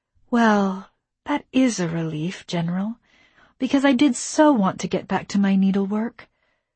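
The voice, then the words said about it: Exaggeratedly sweet, sarcastic voice. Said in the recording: “in my sweetest voice”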